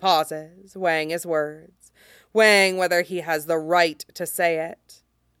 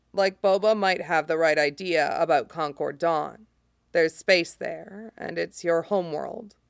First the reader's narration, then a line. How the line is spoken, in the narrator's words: says quietly